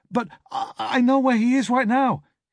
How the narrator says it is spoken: he stammered

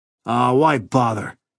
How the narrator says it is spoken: Red said roughly

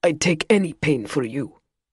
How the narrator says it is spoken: Valentian snarled

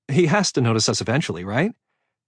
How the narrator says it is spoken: said brightly

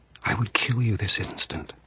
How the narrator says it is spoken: she whispered

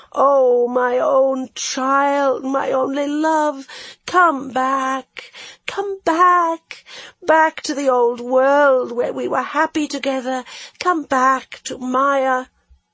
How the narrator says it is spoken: it wailed

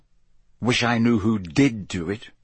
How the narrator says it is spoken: said Harry bitterly

